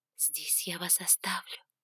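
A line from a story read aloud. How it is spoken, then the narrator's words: Whisper. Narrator (Russian): шепнула жрица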